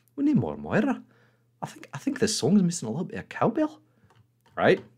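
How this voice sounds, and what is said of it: Comic character voice. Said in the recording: “I'll do it in my Moira voice”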